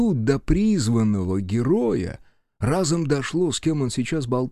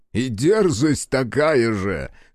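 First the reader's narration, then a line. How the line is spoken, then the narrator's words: Stranger's short laugh. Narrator (Russian): хохотнул незнакомец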